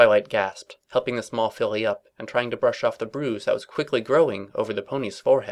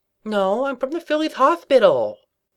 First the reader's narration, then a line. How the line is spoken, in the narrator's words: the small pony lisped